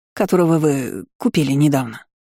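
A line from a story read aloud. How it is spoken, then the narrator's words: Mother grumbling. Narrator (Russian): буркнула мать Анетта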